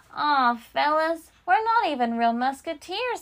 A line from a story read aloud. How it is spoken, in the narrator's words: he said with a sigh